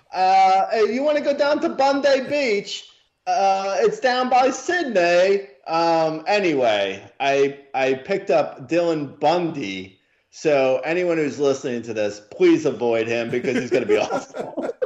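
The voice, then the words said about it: Put-on Australian accent drifting British. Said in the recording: “We went from somewhere from Australian to British in that accent somewhere.”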